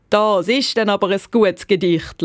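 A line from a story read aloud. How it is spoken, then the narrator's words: Deep-voiced laugh. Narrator (German): lacht er mit seiner tiefen Stimme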